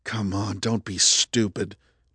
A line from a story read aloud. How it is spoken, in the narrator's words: Justin muttered